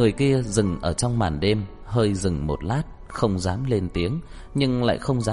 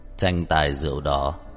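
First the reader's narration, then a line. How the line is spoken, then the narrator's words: Cold voice. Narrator (Vietnamese): Giọng nói lạnh lùng vang lên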